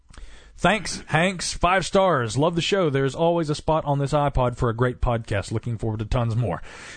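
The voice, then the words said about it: Southern American accent. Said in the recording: “you know what gives away my Southern accent? It's the I's. I can't say I, it's aw. ... apparently I have a Southern accent”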